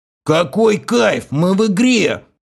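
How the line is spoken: Rowdy yelling at full voice. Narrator (Russian): забуянивший игрок и вновь заорал во все горло

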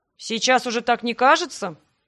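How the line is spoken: Skeptical snort. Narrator (Russian): хмыкнул он

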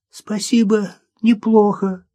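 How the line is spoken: Hoarse rasp. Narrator (Russian): прохрипела Маша

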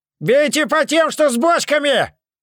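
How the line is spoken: Throat-straining shout. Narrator (Russian): Надрывая связки, прокричал Мирош

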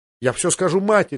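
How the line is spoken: Exclamation. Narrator (Russian): воскликнул Джоффри

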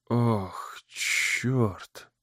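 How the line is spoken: Whisper. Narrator (Russian): прошептал Брэд

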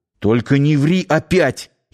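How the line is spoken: Nearly shouting. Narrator (Russian): едва не крикнул он вслух

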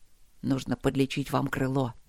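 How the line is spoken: Quiet. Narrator (Russian): тихо проговорил лорд Макс

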